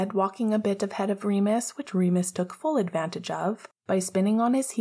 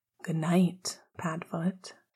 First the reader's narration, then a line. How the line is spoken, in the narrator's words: he said quietly, but with an eyebrow raised in question